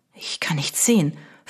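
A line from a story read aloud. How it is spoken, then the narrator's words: Whisper, unnaturally loud. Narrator (German): flüsterte er, und auch das klang in dem stillen Zimmer unnatürlich laut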